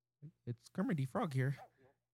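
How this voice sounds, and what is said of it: Poor fake Kermit the Frog voice. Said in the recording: “the fake voice? That was not good.”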